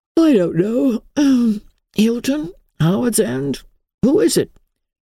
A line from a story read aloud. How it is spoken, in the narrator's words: He said drowsily